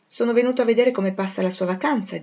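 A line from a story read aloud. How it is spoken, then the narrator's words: Plain. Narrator (Italian): disse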